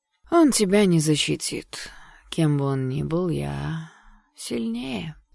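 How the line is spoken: Bored, threatening voice. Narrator (Russian): скучающим голосом произнес вдруг и пригрозил

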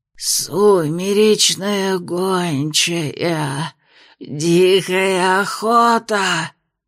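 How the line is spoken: Rasping wounded female voice. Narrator (Russian): прохрипела она, разодранное горло

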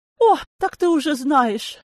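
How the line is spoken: Exclaimed. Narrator (Russian): воскликнула она

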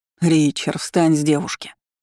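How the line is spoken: Displeased commanding voice. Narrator (Russian): приказал тому недовольным голосом

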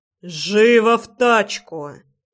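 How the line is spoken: Growl. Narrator (Russian): прорычал

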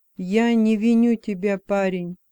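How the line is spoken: Plain. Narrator (Russian): сказал он

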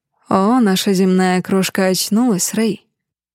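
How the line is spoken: Tender breath in ear. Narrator (Russian): Ласково выдыхает мне на ухо маршал Дэмиен

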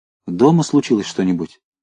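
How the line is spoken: Quick question. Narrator (Russian): быстро спросил он

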